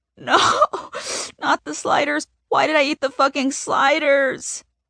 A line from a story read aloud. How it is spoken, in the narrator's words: wail